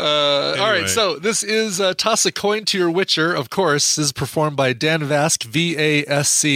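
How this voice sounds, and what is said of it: Usual voice. Nothing is said of it.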